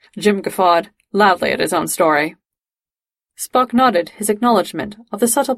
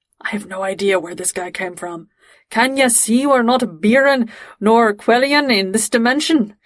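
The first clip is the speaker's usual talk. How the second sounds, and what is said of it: Thick Scottish accent. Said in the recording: “in this really thick Scottish accent”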